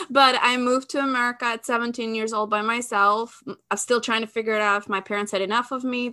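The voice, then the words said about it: Albanian accent in English. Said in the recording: “I'm Albanian originally. People tell me I have an accent.”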